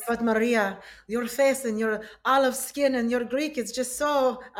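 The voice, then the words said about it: Put-on unidentifiable foreign accent. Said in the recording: “I can't tell with that accent either.”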